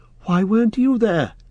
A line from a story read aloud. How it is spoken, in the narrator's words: cried Frodo